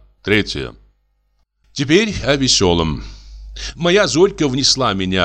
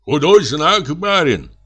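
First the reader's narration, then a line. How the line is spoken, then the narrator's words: Peasant man shouting. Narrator (Russian): крикнул какой-то мужик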